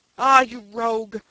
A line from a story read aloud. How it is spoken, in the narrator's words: cried Jones, highly delighted